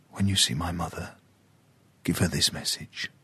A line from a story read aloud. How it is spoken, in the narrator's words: He leaned forward and whispered